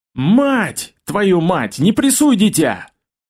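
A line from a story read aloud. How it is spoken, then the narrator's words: Thunderous yell, goblin. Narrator (Russian): Гоблин от ворот заорал так, что все вороны окрест снялись с веток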